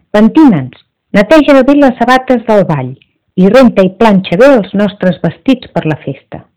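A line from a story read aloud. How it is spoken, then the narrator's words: Happy, commanding. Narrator (Catalan): Les dues germanastres es van posar molt contentes, van cridar la Cendrosa i van dir-li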